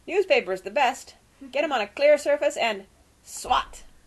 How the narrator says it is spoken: he said loudly

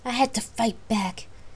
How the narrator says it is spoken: Gabrielle replied angrily

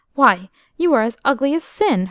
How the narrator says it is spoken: her mistress retorted sharply

